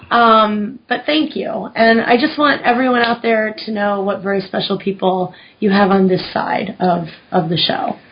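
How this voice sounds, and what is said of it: Choked up, close to tears. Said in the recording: “I'm going to cry. I'm sorry. I get a little choked up.”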